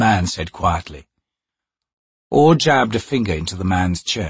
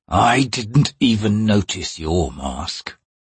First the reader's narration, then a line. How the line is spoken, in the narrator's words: the man said, his voice cold and flat